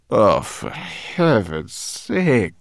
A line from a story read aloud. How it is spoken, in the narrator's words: groaned Sorrel